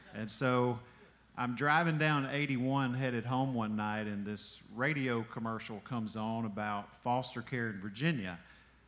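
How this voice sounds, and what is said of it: Tennessee Southern accent. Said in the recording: “we had relocated here from Tennessee, if you wondered where the accent was from.”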